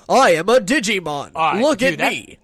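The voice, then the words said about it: Imitates an articulate cartoon creature voice. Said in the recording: “That was a great impression.”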